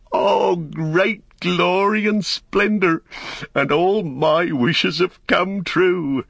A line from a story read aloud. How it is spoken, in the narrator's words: he laughed aloud for sheer delight, and he stood up and cried